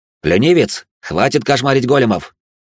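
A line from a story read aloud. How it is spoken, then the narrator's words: Shouting. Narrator (Russian): прокричал я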